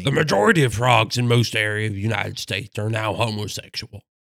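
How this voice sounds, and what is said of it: Imitates another person's voice. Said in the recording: “in my best Alex Jones impression.”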